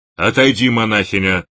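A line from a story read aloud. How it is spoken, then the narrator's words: Rough. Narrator (Russian): грубо сказал спафара кандидат Иовин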